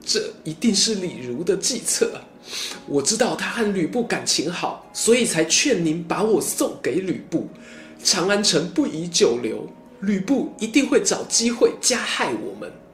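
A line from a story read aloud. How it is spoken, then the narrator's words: Loud wailing. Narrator (Chinese): 貂蝉放声大哭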